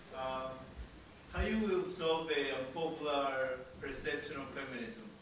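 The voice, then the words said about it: Speaks with a foreign accent. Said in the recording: “Sorry for my accent.”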